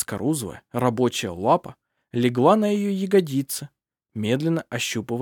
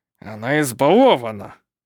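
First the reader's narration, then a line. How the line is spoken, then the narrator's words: Through gritted teeth. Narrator (Russian): сквозь зубы процедил он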